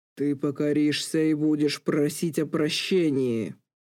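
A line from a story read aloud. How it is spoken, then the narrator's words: Giant's furious roar. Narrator (Russian): рычал гигант в великом гневе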